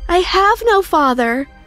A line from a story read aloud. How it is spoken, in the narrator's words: I yelled as I ran out